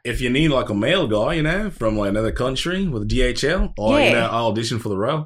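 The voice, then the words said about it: Put-on Australian accent. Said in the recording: “An Australian guy here? ... you sound weird.”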